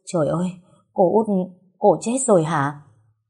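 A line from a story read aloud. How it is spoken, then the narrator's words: Trembling voice. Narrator (Vietnamese): giọng run run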